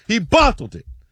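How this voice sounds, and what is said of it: Poor attempt at British accent. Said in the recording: “wow. That was terrible. ... Certainly an attempt at an accent.”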